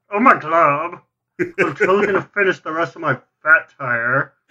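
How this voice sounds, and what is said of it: Lumpy Space Princess cartoon character voice. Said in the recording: “I'm loving this lumpy space princess voice everyone's doing ... that's a really good impression.”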